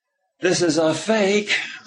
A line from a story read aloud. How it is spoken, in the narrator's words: I said deliberately loudly